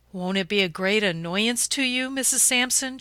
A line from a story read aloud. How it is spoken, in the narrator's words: she asked